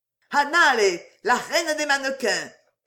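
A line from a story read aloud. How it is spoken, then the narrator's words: Shout. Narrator (French): cria le sélecteur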